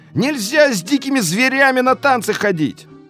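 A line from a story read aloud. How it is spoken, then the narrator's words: Shouted through door gap. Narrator (Russian): в щель прокричали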